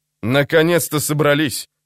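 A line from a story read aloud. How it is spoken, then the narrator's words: Grumbled. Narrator (Russian): проворчал он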